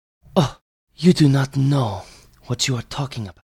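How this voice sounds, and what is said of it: Put-on character accent. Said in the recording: “I gotta fucking figure out this accent.”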